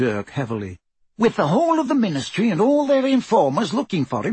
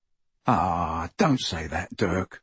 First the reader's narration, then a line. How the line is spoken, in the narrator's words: murmured Ted